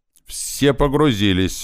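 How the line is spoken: Shouted. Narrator (Russian): закричал Иван

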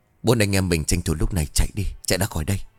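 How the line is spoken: Whisper. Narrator (Vietnamese): Mình thì thầm

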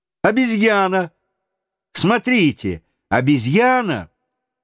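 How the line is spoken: Sudden exclamation. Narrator (Russian): вдруг Роберт воскликнул

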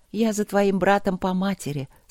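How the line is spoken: Tender. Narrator (Russian): сказала она ласково

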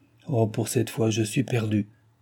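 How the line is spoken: Murmured. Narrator (French): murmura-t-elle

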